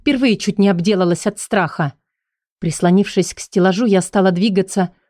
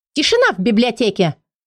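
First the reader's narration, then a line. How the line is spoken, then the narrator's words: Loud bark. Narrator (Russian): девушка-призрак как рявкнет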